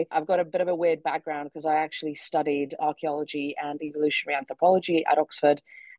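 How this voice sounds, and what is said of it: British-influenced English accent. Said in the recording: “originally from the Czech Republic, although as you can tell from my accent, I spent a long time in the UK”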